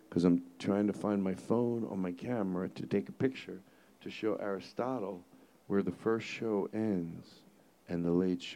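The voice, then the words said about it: Whispering. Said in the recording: “They can leave this whispering part in. You know why I'm whispering?”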